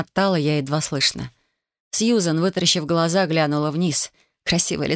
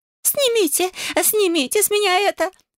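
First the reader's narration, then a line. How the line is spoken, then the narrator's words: Woman shrieking. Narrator (Russian): визжала соседка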